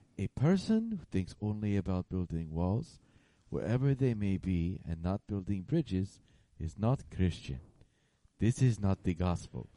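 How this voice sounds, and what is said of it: Bad imitation voice, very soft, slow. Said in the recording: “That's my bad Pope accent. ... That's his bad Pope voice. ... It's very slow. ... be really soft. ... It's very soft and slow.”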